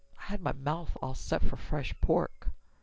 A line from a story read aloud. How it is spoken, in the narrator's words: Dayton muttered